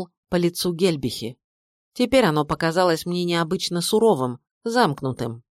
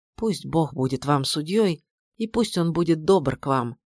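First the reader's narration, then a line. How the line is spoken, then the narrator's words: Whisper. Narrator (Russian): шепотом сказала фрау Гельб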